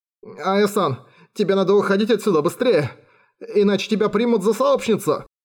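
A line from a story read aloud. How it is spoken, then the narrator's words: Sighing. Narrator (Russian): она вздохнула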